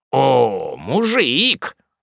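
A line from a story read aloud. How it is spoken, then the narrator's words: Mocking and irritated. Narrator (Russian): сказал поручик и насмешливо, и раздражительно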